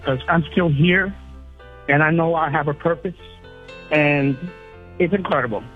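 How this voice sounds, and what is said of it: Tearful, emotional voice. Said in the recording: “now I'm getting a little emotional. I'm crying a little bit”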